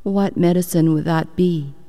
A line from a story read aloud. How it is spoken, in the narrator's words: asked the king